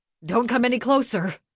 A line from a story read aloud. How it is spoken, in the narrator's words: His voice was agitated